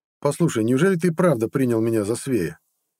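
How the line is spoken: Wry snort. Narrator (Russian): хмыкнул Нет

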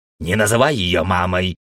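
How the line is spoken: Rude interruption. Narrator (Russian): грубо перебил Пердик

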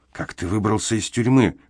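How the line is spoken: Hoarse whispered question. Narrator (Russian): хриплым шепотом спросил Эмзел

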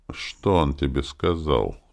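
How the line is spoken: Through gritted teeth. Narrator (Russian): процедил Виктор

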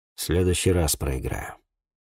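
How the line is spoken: Muffled mutter. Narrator (Russian): пробормотал, прикрывшись рубахой

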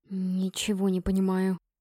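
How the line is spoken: Shocked whisper. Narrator (Russian): потрясенно прошептала я

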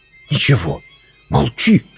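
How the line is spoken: Whisper in ear. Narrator (Russian): прошептала на ухо

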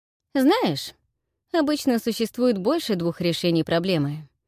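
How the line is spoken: Casual tone. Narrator (Russian): небрежным тоном произнес Широ

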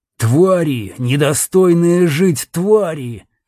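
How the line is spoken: Beast growling. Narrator (Russian): рычал зверь

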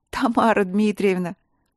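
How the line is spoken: Groan with nervous laughter. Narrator (Russian): простонала Василина, не в силах сдержать нервный смех

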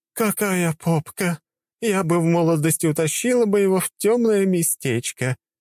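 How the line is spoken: Giggling woman. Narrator (Russian): хихикнула одна из женщин

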